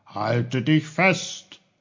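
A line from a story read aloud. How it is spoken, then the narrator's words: Called out. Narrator (German): rief er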